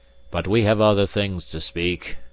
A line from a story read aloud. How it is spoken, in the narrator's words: he continued bitterly